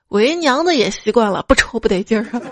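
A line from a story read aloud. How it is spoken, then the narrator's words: Knowing smile, mother. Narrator (Chinese): 他妈会心一笑 说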